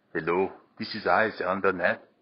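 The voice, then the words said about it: Put-on German accent. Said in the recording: “I've been working on my German accent, obviously, and I wouldn't say it's gotten better, but it's gotten different.”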